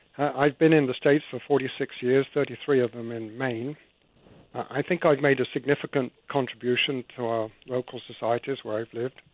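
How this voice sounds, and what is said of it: Foreign accent. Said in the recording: “as you can probably tell from my accent, I'm an immigrant.”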